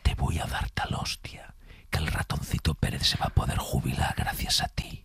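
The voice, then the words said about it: Menacing whisper. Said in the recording (Spanish): “susurrada ... que es en susurro, que da mucho más miedo cuando te lo dices susurrado”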